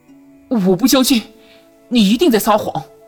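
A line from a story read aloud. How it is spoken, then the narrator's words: Sudden, angry and bewildered. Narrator (Chinese): 男子的表情充满了彷徨、愤怒、无依和疑问，突然道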